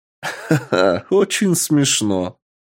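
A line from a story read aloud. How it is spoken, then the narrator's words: Mocking chuckle. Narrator (Russian): хохотнул Красный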